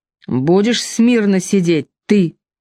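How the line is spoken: Barked. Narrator (Russian): рявкнул

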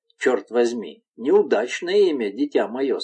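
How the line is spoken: Plain. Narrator (Russian): сказал барон

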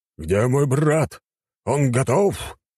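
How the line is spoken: Growling king. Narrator (Russian): прорычал король

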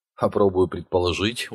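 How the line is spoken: Tired voice. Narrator (Russian): усталым голосом произнес Вэлл

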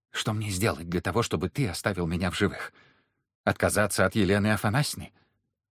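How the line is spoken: Whisper. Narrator (Russian): Прошептал

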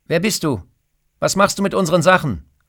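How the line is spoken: Calling out. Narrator (German): ruft

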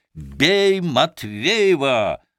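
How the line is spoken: Group shouting. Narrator (Russian): закричали они

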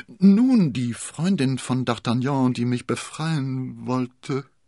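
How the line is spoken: Slurred. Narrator (German): lallte Konstanze

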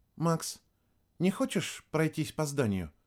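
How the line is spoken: Soft quiet speech. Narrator (Russian): тихонько проговорила Вероника

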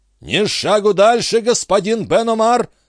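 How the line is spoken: Menacing shout. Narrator (Russian): закричал он грозно

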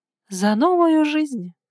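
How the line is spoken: Sighing. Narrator (Russian): вздохнула Ника

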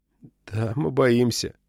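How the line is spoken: Muttered under breath. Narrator (Russian): пробормотал себе под нос Джейкоб Симеон

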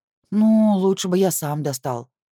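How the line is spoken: Groaned. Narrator (Russian): простонал Алишер

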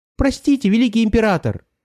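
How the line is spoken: Squeaky voice. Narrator (Russian): пропищал Мяч

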